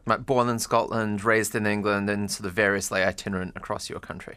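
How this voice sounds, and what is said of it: British accent. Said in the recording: “that accent.”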